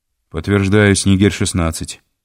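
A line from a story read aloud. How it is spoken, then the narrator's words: Normal voice. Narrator (Russian): ответил Алексей теперь уже нормальным голосом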